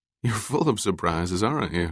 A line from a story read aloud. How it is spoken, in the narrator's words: Kaela said, laughing